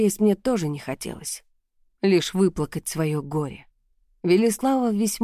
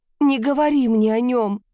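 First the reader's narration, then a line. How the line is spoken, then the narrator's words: Irritated, through sobs. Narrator (Russian): произнесла я с раздражением сквозь рыдание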